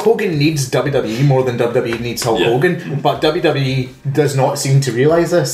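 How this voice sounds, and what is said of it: Usual voice. Nothing is said of it.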